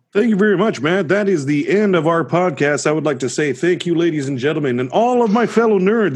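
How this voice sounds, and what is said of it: Announcer-style voice. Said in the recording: “The announcer voice is back”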